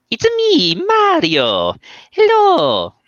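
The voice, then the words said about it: Cartoonish Italian-accented character voice. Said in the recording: “do a Mario impression”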